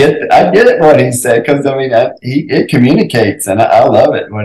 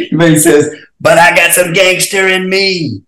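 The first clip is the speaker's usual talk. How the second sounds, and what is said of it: Cornel West impression. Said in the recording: “that was a really good impression”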